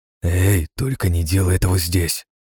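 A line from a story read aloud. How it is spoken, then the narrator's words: Menacing whisper. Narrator (Russian): грозно шепчу своему спутнику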